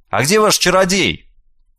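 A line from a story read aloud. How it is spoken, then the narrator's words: Old man, curt offhand remark. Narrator (Russian): Старик резко остановился и, повернувшись в полоборота, обронил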